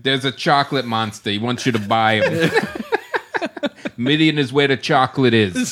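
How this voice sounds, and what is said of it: Put-on Bulvanian accent. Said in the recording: “Is that a Bulvanian accent you're doing?”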